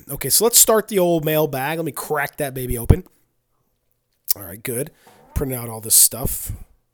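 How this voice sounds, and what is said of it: Raspy, hoarse voice. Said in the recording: “Forgive me for my voice. I've been sick all weekend ... I sound a little raspy or a little hoarse”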